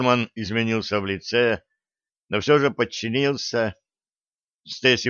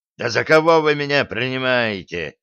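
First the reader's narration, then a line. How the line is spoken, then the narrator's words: Navigator growling. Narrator (Russian): зарычал штурман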